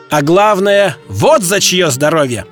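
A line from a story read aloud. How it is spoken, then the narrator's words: Ecstatic shout. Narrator (Russian): крикнул Д'Артаньян, словно в порыве восторга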